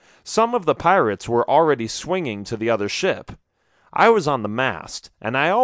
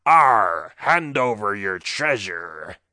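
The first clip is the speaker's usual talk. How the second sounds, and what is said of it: Thick pirate accent. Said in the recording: “He had the thickest pirate accent I had ever heard.”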